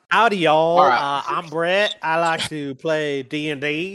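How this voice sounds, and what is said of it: Put-on Southern accent. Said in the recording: “Your southern accent bullshit.”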